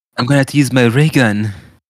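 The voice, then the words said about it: Cartoon character voice impression. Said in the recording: “Can you do a Stewie impression?”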